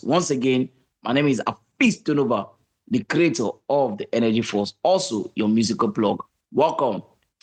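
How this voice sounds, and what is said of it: Distorted, strained voice after voice loss. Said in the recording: “my voice sounds a bit distorted. I lost my voice”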